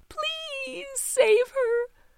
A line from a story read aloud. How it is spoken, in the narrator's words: Teeny pleaded